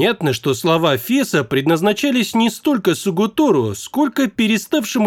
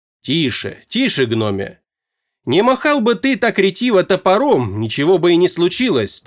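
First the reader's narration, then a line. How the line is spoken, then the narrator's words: Stern. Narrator (Russian): строго сказал Фесс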